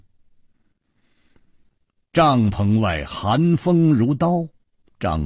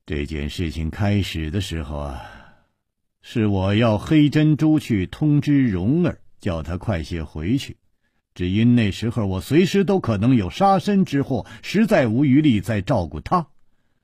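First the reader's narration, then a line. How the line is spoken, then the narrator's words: Sighing, weary. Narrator (Chinese): 楚留香叹了一口气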